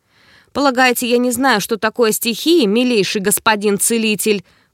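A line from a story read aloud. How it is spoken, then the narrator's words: Booming voice. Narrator (Russian): прогремел он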